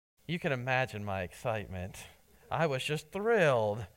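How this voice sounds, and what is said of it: Sarcastic tone. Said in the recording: “that was sarcasm”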